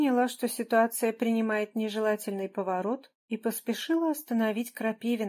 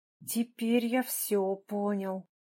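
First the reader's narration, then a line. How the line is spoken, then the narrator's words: Hissed. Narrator (Russian): шипел Крапивин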